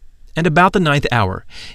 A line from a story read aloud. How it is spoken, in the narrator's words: Jesus cried with a loud voice